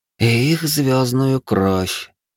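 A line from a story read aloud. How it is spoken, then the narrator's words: Grim, smiling. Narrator (Russian): мрачно улыбнулась палач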